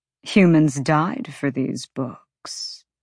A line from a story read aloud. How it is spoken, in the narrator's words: Micah purred